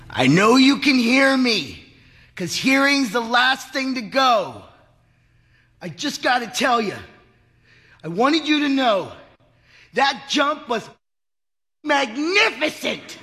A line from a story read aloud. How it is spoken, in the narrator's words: Henry bellowed into his ear